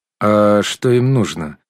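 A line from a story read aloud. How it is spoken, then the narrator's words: Indifferent. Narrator (Russian): равнодушным голосом спросил подобравшийся первый секретарь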